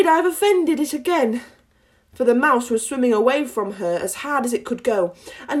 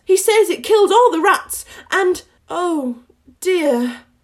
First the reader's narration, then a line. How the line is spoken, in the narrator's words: cried Alice again in a sorrowful tone